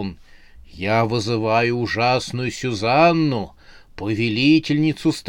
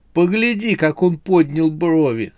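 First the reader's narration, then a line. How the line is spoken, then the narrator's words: Through laughter. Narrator (Russian): сказала она сквозь смех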